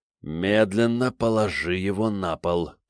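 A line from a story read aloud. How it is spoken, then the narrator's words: Hissed. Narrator (Russian): прошипел Захар, не зная, чего ждать от странной вещицы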